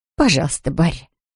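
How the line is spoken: Mumble. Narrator (Russian): пробормотала она

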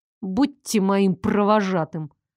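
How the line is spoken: Through gritted teeth. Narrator (Russian): процедила я сквозь зубы

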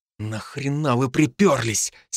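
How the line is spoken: Hoarse question. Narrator (Russian): сипло спросил я у Дарта

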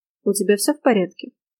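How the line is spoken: Quiet inquiry. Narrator (Russian): негромко поинтересовалась я

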